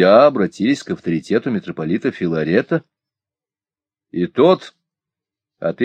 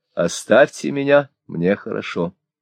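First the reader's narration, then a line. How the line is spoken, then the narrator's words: Quiet meek reply. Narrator (Russian): отвечал тихо и кротко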